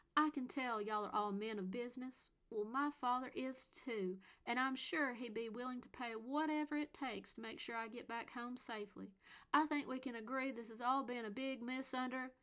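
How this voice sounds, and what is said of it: Exaggerated warm Southern accent. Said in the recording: “she played up a southern accent warm enough to melt butter”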